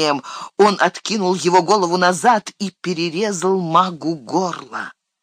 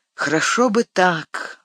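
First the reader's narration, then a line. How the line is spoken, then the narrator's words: Sighing. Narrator (Russian): вздохнул Фродо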